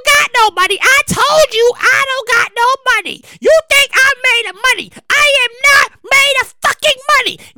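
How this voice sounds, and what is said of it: Imitates another person's voice. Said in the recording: “I do the Miss Gwen voice”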